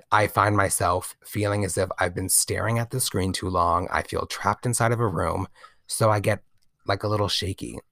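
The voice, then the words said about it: Scratchy voice. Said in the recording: “my voice is so scratchy. I definitely need to get myself some water.”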